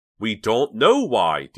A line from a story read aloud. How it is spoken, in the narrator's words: Dina shouted